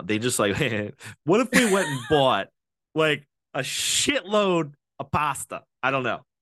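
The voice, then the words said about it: Slight Boston accent. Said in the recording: “I feel like my accent is that going Boston a little bit. I think it was going. ... Boston.”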